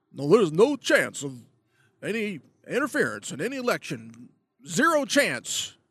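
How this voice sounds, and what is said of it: Put-on Texas accent. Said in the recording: “I'm giving Obama a Texas accent”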